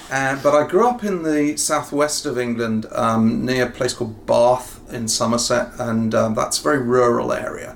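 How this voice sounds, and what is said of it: English accent. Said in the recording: “this is not a natural Ohio accent ... I grew up in the United Kingdom, in Britain ... I've got a sort of English accent”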